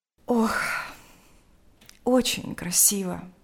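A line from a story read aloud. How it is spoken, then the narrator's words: Sighing. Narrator (Russian): сказала она, вздохнув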